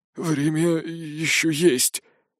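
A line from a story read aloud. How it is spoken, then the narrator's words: Trembling whisper. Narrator (Russian): дрогнувшим голосом прошептал Гнор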